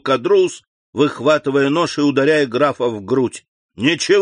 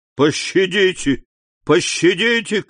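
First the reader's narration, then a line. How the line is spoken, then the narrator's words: Desperate shouting. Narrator (Russian): кричал Кадрус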